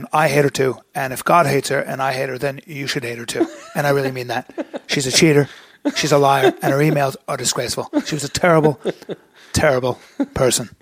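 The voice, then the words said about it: Bad Donald Trump impression. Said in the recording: “that's a bad Donald Trump”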